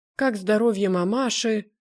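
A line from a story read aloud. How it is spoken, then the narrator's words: Timid, disconcerted question. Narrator (Russian): спрашивает робко обескураженный Семенюта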